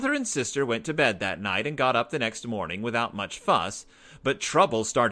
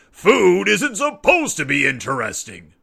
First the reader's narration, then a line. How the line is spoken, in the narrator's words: roared Papa